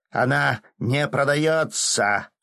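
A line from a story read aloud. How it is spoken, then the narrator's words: Clown barking. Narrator (Russian): рявкнул клоун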